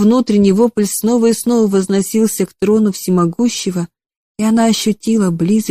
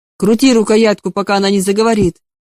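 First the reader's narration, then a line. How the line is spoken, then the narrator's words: Sharp furious command. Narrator (Russian): резко скомандовал разъяренный чиновник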